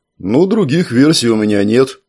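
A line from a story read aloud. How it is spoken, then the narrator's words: Perfectly calm. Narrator (Russian): совершенно спокойно ответил Амфибос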